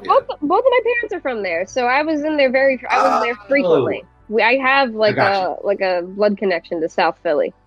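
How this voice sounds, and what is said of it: South Philly accent. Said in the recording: “That's where the bastard accent comes from.”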